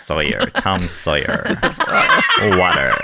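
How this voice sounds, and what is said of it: American accent with vocal fry. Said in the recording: “The vocal fry you have ... With an American ... accent ... Is so good.”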